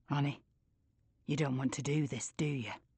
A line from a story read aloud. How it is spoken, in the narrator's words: Tom whispers